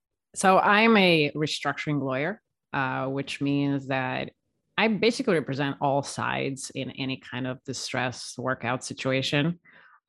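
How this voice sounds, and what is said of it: Slovenian accent in English. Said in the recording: “You may pick up on an accent that ... has because ... is our very first guest from the country of Slovenia.”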